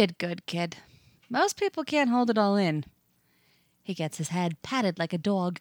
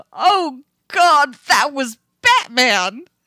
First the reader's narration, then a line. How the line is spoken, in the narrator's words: screaming, gibbering